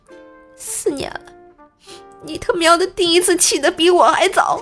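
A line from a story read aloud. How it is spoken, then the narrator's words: Choked with tears. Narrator (Chinese): 他哽咽着说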